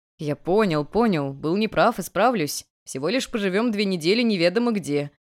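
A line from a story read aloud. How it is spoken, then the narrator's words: Grumbling. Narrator (Russian): проворчал Дал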